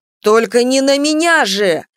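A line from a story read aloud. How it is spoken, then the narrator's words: Shouted out. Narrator (Russian): выкрикнул оборотень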